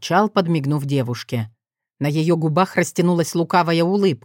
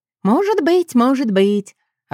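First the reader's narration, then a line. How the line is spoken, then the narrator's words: Singsong reply. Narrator (Russian): отозвалась она певучим тоном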